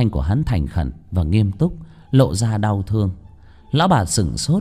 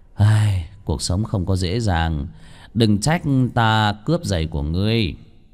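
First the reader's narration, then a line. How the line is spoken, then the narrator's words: Sighing. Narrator (Vietnamese): Vương Bình thở dài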